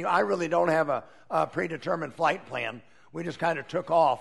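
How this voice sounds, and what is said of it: Raspy voice. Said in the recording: “I hope that my voice is held up well enough today. Kind of a raspy voice today.”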